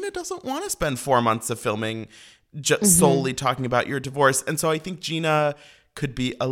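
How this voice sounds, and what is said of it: Usual voice. Nothing is said of it.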